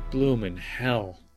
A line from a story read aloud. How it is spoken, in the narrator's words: Campbell muttered